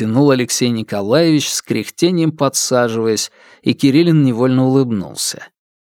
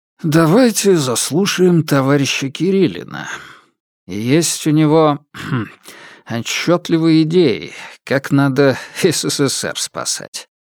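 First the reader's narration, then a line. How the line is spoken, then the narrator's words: Good-natured grumble. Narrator (Russian): добродушно проворчал хозяин кабинета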